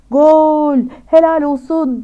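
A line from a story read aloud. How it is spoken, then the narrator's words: Shouting voice. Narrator (Turkish): diye bağıran sesi geldi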